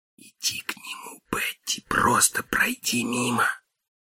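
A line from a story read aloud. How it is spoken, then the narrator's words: Whispered. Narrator (Russian): Барни прошептал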